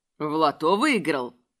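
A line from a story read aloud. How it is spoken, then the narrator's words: Grunting nobleman. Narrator (Russian): хмыкнуло благородие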